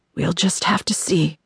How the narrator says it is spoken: Doll whispered

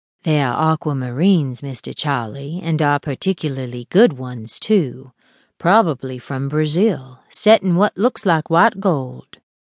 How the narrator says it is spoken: Marie murmured

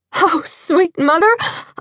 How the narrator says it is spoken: I gasped as we heard the door downstairs swing open

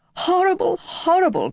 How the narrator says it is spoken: cried Mrs

